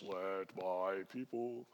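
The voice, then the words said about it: Deep singing voice. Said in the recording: “That deep voice”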